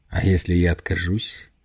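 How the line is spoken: Forced out. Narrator (Russian): выдавил из себя Намура

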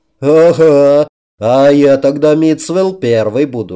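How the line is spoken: Guffawing laughter. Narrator (Russian): расхохотался стражник

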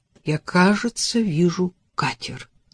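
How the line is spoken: Whisper. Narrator (Russian): прошептал Адам рифу

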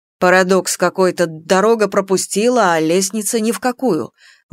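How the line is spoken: Grumbling. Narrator (Russian): ворчал Марина

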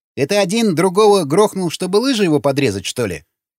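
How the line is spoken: Snorting. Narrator (Russian): хмыкнул Сквернослов

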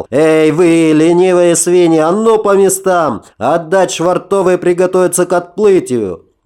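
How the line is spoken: Shout. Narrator (Russian): закричал

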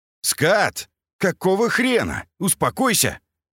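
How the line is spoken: Shout. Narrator (Russian): крикнул Антонов

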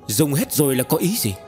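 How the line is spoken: Angry. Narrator (Vietnamese): Tần Mục giận dữ

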